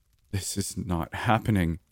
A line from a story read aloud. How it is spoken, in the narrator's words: I muttered to myself